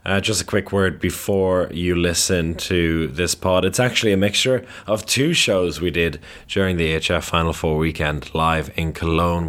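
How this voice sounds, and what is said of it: Tired, worn-out voice. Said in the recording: “as you can probably tell from my voice, it's a little bit tired after a long weekend at the AGF Final Four and a little bit of singing as well”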